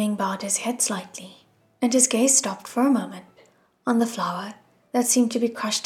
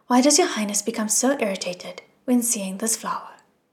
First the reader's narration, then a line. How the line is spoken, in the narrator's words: Wu Ming asked